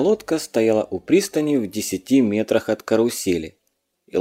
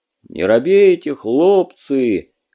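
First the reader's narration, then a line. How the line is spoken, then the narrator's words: Booming voice. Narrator (Russian): прогудел Илья с пирса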